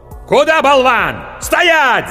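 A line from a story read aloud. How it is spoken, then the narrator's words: Yelling. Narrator (Russian): заорал меч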